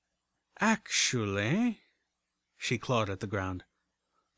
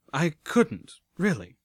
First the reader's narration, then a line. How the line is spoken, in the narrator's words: I stammered